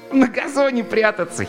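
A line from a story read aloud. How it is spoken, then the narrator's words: Giggling. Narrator (Russian): хихикнул Марк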